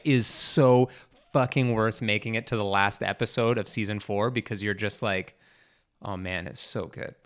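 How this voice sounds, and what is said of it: Excited, loud yelling. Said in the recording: “I'm yelling so loud... I'm so excited.”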